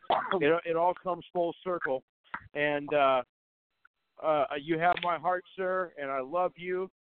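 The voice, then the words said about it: Emotional, choked-up voice. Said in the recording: “getting emotional. I'm getting choked up”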